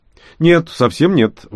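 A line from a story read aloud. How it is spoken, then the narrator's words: Exclaiming. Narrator (Russian): воскликнул я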